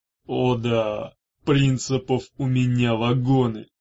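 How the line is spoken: Grumbling. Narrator (Russian): проворчал Арей

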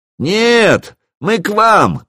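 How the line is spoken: Shout. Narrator (Russian): крикнул я

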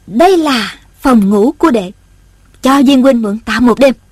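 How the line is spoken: Smiling. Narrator (Vietnamese): Ôn Thanh mỉm cười nói

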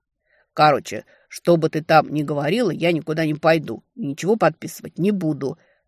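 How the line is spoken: Stubborn, through clenched teeth. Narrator (Russian): процедил упрямо

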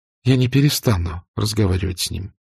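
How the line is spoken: Quiet speech. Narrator (Russian): негромко проговорила она

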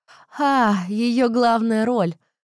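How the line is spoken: Drawl then awkward giggle. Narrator (Russian): протянула Бет и хихикнула не впопад

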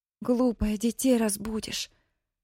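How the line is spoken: Loud whisper. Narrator (Russian): шепотом вскричала Мэри

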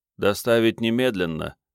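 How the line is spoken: Glum clarifying. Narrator (Russian): уныло уточнил Серсанур

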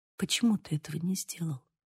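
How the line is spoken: Barely audible question. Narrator (Russian): Едва слышно спросила

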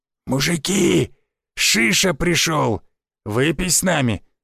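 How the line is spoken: Hoarse old man. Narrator (Russian): прохрипел однорукий старик

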